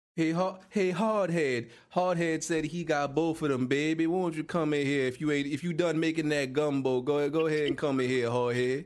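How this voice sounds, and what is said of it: Put-on Southern swamp accent. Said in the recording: “I gotta change the accent to talk to my brethren down there in the swamp”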